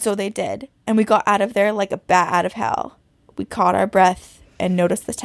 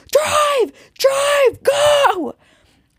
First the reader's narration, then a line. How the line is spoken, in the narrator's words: And we just piled in screaming